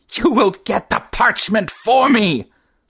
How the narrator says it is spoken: shrieked the thing

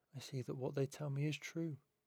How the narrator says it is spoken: Vincent says softly

